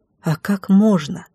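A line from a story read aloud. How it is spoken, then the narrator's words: Whisper. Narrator (Russian): прошептала я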